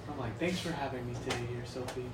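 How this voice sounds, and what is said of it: Exaggerated announcer voice. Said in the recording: “he did his announcer voice”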